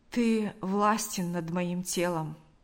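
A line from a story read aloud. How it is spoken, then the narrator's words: Plain. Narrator (Russian): ответил Лукьян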